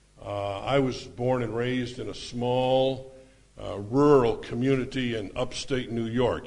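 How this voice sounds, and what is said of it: Rural upstate New York accent. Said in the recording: “You can tell by the accent”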